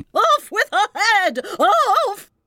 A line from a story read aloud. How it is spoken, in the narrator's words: The Queen turned crimson with fury, and after glaring at her for a moment like a wild beast, began screaming